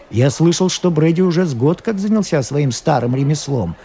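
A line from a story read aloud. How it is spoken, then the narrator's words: Plain. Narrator (Russian): сказал сыщик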